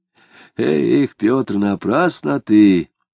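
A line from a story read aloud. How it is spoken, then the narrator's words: Gloomy, old man. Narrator (Russian): сказал седобородый уныло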